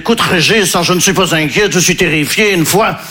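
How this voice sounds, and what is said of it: Put-on Belgian French accent. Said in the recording (French): “là je prends l'accent belge parce que je ne sais pas faire l'accent ukrainien”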